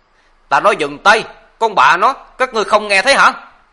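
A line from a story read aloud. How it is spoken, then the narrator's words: Shouted. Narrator (Vietnamese): Kèm theo tiếng hét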